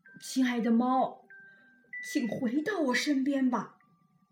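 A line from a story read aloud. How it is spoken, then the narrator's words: Pleading bitterly. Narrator (Chinese): 国王苦苦的哀求它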